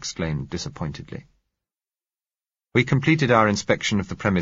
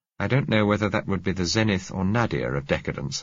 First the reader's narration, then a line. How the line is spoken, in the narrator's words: I said